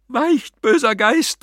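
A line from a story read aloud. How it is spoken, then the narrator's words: Shrieking. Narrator (German): kreischte er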